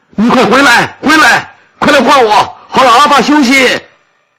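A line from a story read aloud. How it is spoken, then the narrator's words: Anxious shouting. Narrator (Chinese): 羊壳急得大喊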